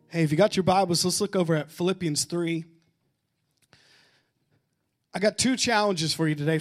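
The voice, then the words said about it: Quiet, strained recovering voice. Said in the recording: “my voice is still recovering from camp ... I can't help but be quiet ... I can't go at full volume”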